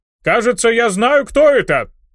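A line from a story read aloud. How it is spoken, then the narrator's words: Shout. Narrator (Russian): крикнул он баронессе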